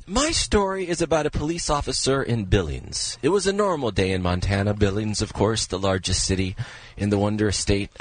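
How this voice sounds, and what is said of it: Imitates a TV news narrator's voice. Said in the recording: “my Keith Morrison impression ... my audition for Dateline”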